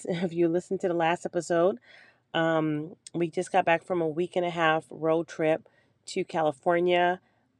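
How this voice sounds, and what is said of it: Hoarse voice. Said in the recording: “I'm still dealing with hoarseness. ... So if I sound hoarse, that's why.”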